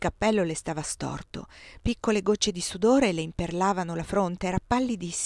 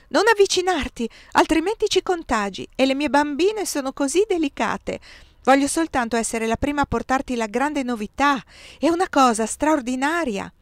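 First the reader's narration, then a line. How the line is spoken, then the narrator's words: Shouted at once. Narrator (Italian): ella gridò subito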